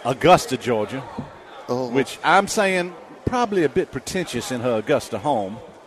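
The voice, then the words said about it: Put-on Georgia Southern accent. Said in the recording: “Good good Georgia accent right there ... It's basically me doing an imitation of Charlize Theron in Bagger Vance being from Savannah”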